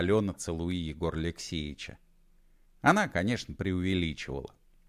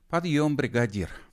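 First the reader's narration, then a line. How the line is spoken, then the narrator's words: Sighing. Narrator (Russian): вздохнула и Алена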